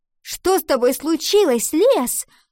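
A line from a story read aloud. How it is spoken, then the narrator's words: Angry cry. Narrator (Russian): сердито выкрикнула она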